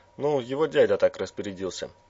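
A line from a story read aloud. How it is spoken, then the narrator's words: Cheerful. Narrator (Russian): весело объяснил раз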